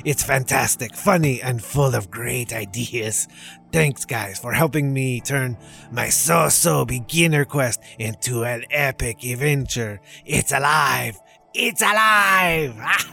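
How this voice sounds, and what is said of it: Eager merchant-like character voice. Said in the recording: “doing that voice ... eager voice sounds very similar to a lot of merchant voices”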